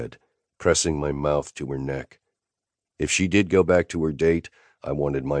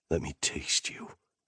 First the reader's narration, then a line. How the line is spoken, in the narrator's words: I whispered